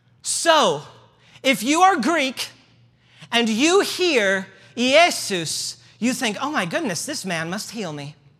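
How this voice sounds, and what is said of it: Midwestern American accent. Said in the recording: “I have a Midwest accent”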